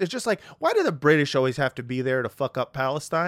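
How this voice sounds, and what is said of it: Usual voice. Nothing is said of it.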